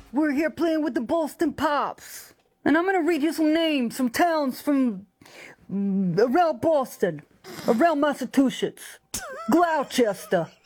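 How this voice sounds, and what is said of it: Southern speaker attempting Boston accent. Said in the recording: “attempting a Boston accent. And, of course, she's got a very thick Southern accent. ... here's how Lainey sounds trying to imitate a Bostonian.”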